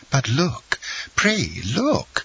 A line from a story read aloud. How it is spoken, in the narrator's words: exclaimed Madame Danglars